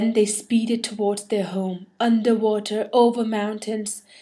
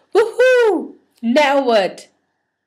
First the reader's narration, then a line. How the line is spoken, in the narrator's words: Everybody yelled